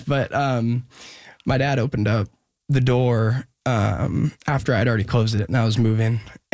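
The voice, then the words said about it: Emotional, choked-up voice. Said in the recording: “I don't know why I'm getting emotional talking about this. I never get emotional talking about this stuff.”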